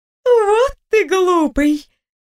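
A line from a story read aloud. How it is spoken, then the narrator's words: Laughing. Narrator (Russian): Рассмеявшись, ответил голос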